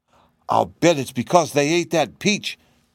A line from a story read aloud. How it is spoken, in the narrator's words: cried the kitten